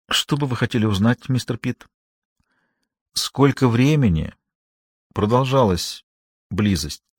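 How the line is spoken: Very quiet speech. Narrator (Russian): сказал очень тихо

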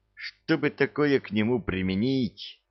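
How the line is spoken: Feverish muttering. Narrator (Russian): Лихорадочно бормотал он

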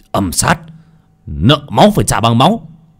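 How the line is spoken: Vengeful shout. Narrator (Vietnamese): Cổ Phong hét lên một tiếng

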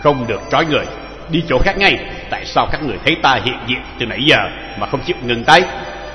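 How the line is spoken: Cold young man. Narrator (Vietnamese): thanh niên công tử đứng quan sát trận đấu lạnh lùng nói

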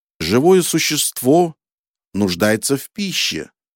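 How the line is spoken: Plain. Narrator (Russian): сказал я

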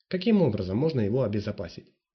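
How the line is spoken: Plain. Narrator (Russian): спросил Фишер

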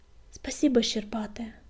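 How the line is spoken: Relieved exhale. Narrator (Russian): с облегчением выдохнул Огнегрив

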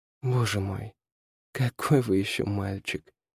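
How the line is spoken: Mumbled with reluctant smile. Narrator (Russian): пробормотала Ирен, против воли улыбнувшись

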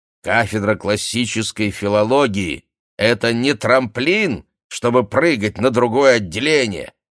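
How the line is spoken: Shouting. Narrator (Russian): кричал он

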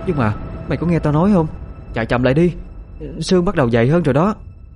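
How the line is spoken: Increasingly fearful voice. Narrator (Vietnamese): Thấy không ổn, Khoanh liền nói với giọng lo sợ hơn

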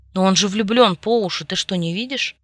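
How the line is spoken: Irritated. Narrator (Russian): раздраженно прищурился Ньютон

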